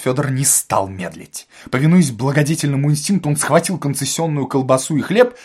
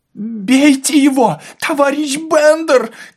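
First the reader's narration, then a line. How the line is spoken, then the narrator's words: Breathless shout from ground. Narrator (Russian): кричал с земли отдышавшийся Ипполит Матвеевич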